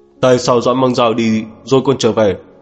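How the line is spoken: Furious. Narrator (Vietnamese): Mục Quang căm tức, tức giận đến nỗi râu dựng mắt trợn tròn

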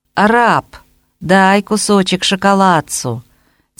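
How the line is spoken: Wheedling drawl. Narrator (Russian): тянет Фетченко умильным тоном

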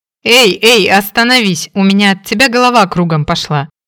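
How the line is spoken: Laughing. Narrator (Russian): рассмеялся Фрэнк

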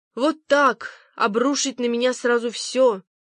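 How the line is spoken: Moaning, lying down. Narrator (Russian): стонала Пег, лежа в темноте своей спальни с надушенным платком на лбу

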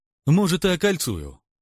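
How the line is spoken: Cheerful reply. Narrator (Russian): весело отвечаю

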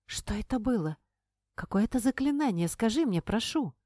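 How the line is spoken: Rapturous whisper. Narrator (Russian): Прошептала она восторженно

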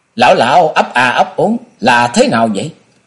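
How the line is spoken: Loud laughing speech. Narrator (Vietnamese): Hoa Thiên Hồng cười lớn nói

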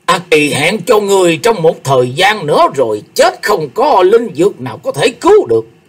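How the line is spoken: Old man roaring. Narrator (Vietnamese): Phù phiếm lão ông gầm lên

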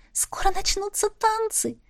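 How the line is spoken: Happy whisper. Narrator (Russian): напоследок шепнула Полли, и счастливая

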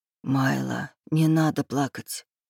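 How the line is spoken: Whisper. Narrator (Russian): прошептал Рейв

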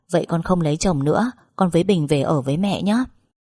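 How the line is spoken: Laughing reply. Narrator (Vietnamese): Tôi bật cười đáp

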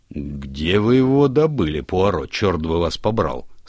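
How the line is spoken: Plain. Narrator (Russian): спросил Нил

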